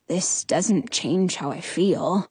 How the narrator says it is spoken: Prince Tristan murmurs

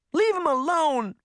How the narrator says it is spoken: Daphne shouted

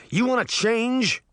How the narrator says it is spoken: Uncle Jake shouted

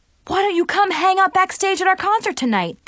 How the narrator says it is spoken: They said excitedly

